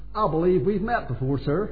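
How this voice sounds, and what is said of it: Put-on American accent. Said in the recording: “Speaking in his American accent.”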